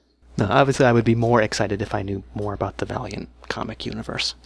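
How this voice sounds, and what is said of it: Usual voice. Nothing is said of it.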